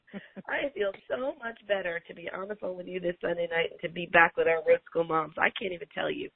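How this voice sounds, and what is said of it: Slightly hoarse voice. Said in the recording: “You may hear that I'm a little hoarse. I have a little bit of that cold that's going around.”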